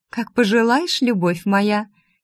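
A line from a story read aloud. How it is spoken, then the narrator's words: Giggling woman. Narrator (Russian): хихикнула кокотка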